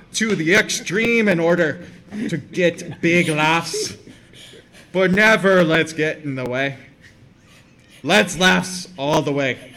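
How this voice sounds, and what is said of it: Attempted Australian accent, sounds Irish. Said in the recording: “That's more Irish. ... they told me to do it in the accent. ... I completely have polarized every Australian.”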